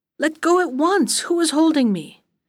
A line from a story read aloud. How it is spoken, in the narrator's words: he called out angrily